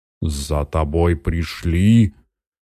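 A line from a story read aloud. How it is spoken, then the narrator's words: Booming bass. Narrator (Russian): гудит басом Святогор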